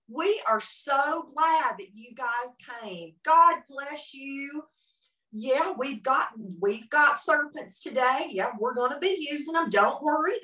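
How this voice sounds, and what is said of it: Exaggerated Southern American accent. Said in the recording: “I'm going to use an accent that's very Southern, okay? I'm Southern anyway”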